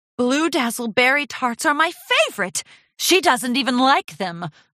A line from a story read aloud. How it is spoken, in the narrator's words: Rarity exclaimed